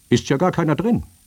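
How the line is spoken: Calling voice. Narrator (German): Eine Stimme rief

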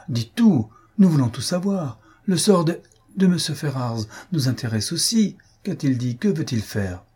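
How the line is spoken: Exclaimed. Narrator (French): s'écria Elinor

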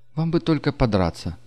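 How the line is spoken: Sighing. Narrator (Russian): вздохнула Нелла

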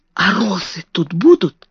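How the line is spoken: Whisper. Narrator (Russian): шепнула

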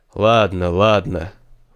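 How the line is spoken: Old man sighing. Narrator (Russian): вздохнул старец

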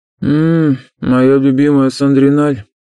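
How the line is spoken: Sigh. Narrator (Russian): вздохнул Альтар

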